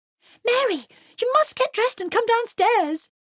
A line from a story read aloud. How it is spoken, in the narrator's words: exclaimed Lydia